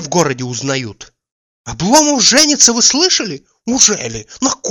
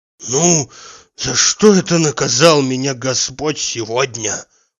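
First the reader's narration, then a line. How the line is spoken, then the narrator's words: Whisper with heavy sigh. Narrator (Russian): прошептал Захар, вздохнув так, что у него приподнялись даже плечи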